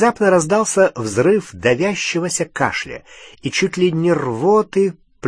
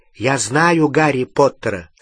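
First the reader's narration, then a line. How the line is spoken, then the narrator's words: Plain. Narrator (Russian): сказал Дин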